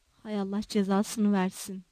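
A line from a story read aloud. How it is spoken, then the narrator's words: Muttering. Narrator (Turkish): diye mırıldandı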